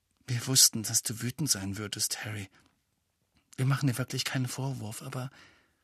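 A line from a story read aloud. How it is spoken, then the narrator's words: Murmuring. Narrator (German): Hermine sagte leise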